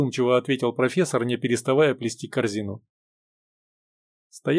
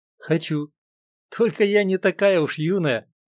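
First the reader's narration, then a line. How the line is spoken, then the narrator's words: Cheerful. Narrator (Russian): весело ответила Людмила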